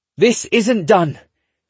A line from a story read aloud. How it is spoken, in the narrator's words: McCall shouts